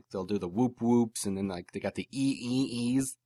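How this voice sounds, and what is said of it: Siren sound effects, Michael Winslow impression. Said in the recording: “That's my Michael Winslow impression, too, by the way.”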